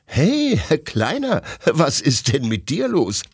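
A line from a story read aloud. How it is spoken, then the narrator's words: Laughing question. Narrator (German): fragt Detlef lachend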